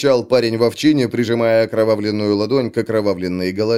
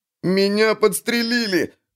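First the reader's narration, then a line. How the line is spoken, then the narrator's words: Sobbing. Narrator (Russian): всхлипнул тот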